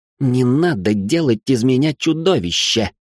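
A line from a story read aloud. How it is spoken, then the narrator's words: Hissing. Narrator (Russian): прошипел Ричард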